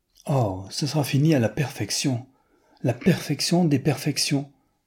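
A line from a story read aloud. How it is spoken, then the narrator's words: Young lady's exclamation. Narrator (French): s'écria la demoiselle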